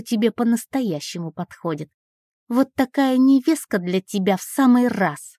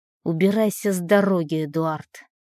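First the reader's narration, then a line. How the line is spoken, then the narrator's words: Calm, almost cold. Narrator (Russian): Говорю спокойно, почти холодно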